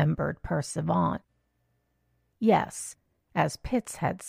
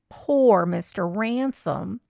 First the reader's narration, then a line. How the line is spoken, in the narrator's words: he said again